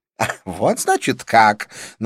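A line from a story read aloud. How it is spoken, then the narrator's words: Mocking snort. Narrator (Russian): насмешливо фыркнула она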